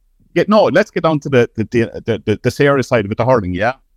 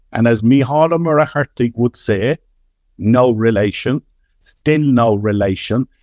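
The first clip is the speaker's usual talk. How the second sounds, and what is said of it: Poor attempt at Kerry accent. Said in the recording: “You're not very good at a Kerry accent ... No, terrible. ... He won't make a living as an impersonator”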